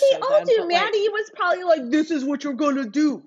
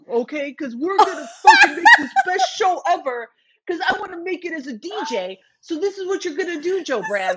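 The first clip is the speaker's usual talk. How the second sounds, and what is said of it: Imitates another person's voice. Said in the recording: “Such a good impression.”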